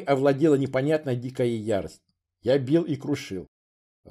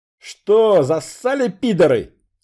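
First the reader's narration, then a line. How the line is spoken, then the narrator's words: Yelling at full volume. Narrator (Russian): завопил во весь голос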